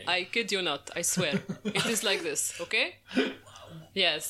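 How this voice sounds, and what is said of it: Fake Arab-Egyptian Dutch accent. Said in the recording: “This is my fabricated Arab-Egyptian in Dutch accent.”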